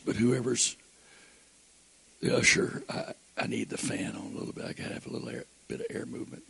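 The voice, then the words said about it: Hoarse voice. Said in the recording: “I know I'm hoarse,”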